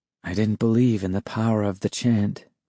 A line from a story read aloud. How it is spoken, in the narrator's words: said softly